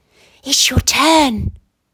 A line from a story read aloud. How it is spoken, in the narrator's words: Sun whispered, full of delight